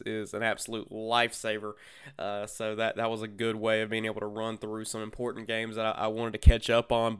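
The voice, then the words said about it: Hoarse, scratchy sick voice. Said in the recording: “my voice sounds a little bit different this week, your boy has the crud this week ... dealing with a dry, scratchy throat all week”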